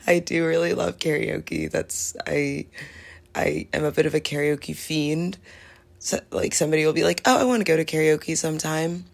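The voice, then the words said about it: Slightly hoarse voice. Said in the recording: “my voice sounds a little more hoarse than usual”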